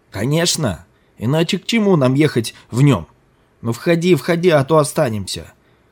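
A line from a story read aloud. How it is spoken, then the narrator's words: Shouting. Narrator (Russian): кричал Ким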